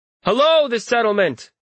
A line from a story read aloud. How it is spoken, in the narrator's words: shout